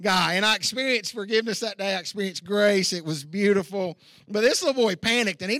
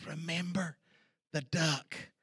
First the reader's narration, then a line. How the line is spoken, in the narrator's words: she whispers real closely in his ear, and she says